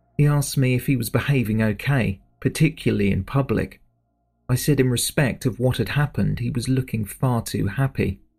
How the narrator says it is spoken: the witness said

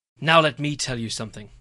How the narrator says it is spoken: I snapped into the mic

